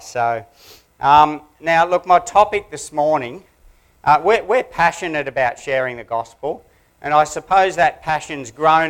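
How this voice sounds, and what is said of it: Australian accent. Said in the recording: “catch on to my Aussie accent”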